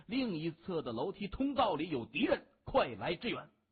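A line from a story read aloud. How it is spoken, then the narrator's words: Loud urgent speech. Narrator (Chinese): 对着霹雳小组的队员大声地说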